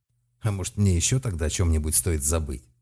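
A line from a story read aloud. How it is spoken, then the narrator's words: Angry. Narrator (Russian): спросил Малк зло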